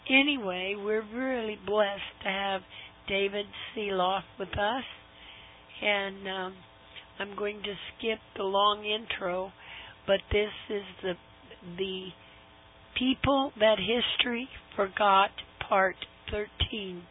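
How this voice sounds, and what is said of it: Wobbly, hoarse voice. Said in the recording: “you can hear my wobbly voice... I'm getting laryngitis”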